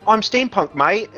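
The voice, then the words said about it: Deliberately bad British accent. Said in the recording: “shitty British accents ... awful British accent”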